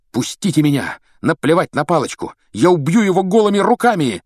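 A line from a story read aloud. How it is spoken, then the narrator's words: Shouting, struggling. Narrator (Russian): кричал Рон, вырываясь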